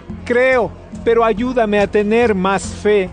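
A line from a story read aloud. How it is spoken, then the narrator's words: Father's sudden cry. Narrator (Spanish): El padre del niño gritó al instante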